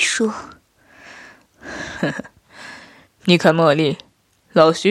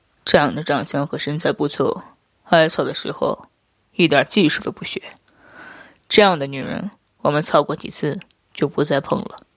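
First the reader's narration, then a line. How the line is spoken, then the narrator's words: Flat, indifferent. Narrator (Chinese): 夫君淡淡道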